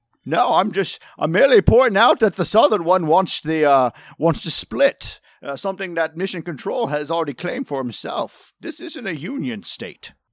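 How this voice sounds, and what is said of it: Put-on British accent. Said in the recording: “give me a second to get my accent back ... you're from Britain, right?”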